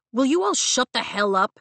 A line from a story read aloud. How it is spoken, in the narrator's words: Dane barks in his superior officer voice